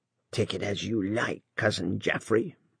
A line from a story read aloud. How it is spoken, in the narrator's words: muttered the maiden lady